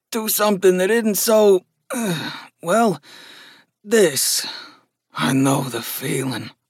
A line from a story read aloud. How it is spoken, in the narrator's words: Gus muttered